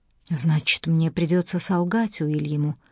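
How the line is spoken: Muttered. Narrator (Russian): пробормотала Эмили

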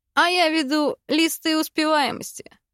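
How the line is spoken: Laughing. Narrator (Russian): хохотнул однокурсник

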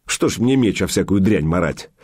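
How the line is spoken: Snorting. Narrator (Russian): Илья хмыкнул

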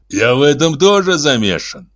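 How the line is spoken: Growled. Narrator (Russian): прорычал он

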